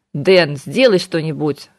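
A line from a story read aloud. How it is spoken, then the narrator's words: Irritated demand. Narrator (Russian): раздраженно потребовал он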